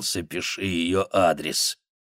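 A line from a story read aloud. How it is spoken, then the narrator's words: Growled. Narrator (Russian): Данди прорычал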